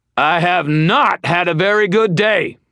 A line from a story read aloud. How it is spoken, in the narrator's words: bellowing